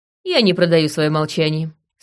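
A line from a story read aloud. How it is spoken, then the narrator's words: Cold. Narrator (Russian): сказала я холодно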